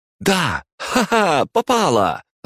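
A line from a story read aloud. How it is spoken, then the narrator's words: Joyful shout. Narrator (Russian): радостно выкрикнула Мария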